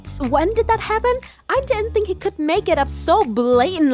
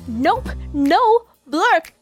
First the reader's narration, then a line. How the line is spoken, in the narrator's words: Daniel's mom suddenly cried louder